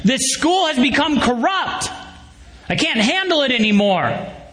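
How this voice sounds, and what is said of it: Loud yelling voice. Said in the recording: “In this loudest voice, the student starts yelling”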